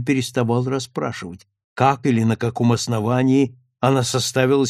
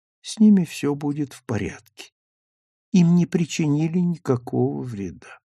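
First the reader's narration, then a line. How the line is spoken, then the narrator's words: Slow sleepy voice. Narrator (Russian): она отвечала медленно, сонным голосом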